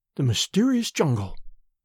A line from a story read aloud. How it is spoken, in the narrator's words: she murmured